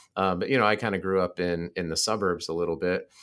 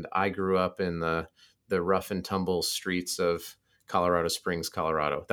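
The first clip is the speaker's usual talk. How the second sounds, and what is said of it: Sarcastic delivery. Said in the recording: “That was sarcasm, by the way. Those are air quotes.”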